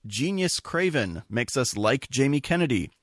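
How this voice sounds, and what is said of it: Usual voice. Nothing is said of it.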